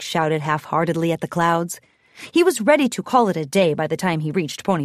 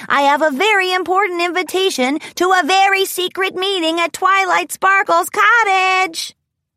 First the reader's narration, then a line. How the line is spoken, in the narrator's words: called out impatiently